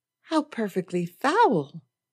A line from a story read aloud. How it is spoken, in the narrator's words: Andre exclaimed